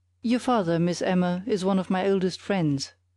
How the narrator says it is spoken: said Mr

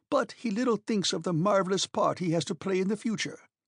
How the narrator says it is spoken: cried my uncle

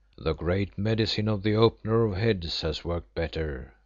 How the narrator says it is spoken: remarked Umslopogaas with a little laugh

